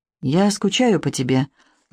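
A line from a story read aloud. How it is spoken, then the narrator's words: Unexpectedly soft. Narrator (Russian): неожиданно мягко произнес он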